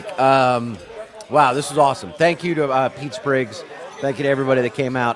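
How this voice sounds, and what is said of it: Strained, hoarse, fading voice. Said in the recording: “I'm losing my voice, which it's probably the bun cake.”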